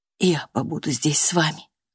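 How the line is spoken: Whispered. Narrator (Russian): прошептала

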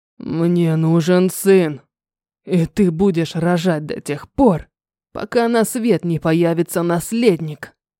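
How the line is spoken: Bestial growling. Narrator (Russian): Прорычал мне в лицо диким зверем

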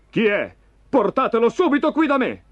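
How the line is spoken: Shouting. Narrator (Italian): gridò Saul

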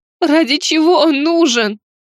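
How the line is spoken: Shouting. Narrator (Russian): закричала

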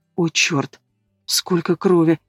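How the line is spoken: Whisper. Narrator (Russian): прошептала Алена

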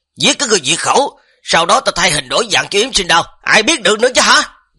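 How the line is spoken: Loud shout. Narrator (Vietnamese): Bùi Lăng lúc này đột nhiên hét to

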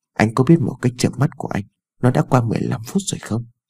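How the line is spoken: Soft sulky. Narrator (Vietnamese): Ái Dương khẽ dỗi hờn

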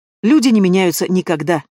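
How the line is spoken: Sharp reply. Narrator (Russian): отвечаю резко

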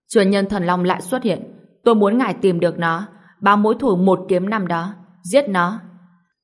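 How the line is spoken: Loud commanding shout. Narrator (Vietnamese): Tá Đẳng Thái Thần lớn tiếng quát

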